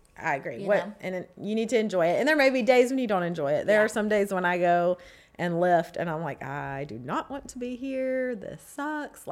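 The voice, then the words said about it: Congested voice from a cold. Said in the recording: “you can really tell in my voice, I've had a cold.”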